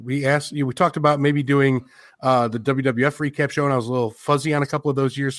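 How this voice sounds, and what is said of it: Scratchy, sick voice. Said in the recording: “I'm a little sick, so everyone's going to have to luxuriate in my scratchy voice.”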